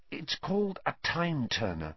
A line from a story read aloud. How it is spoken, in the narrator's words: Hermione whispered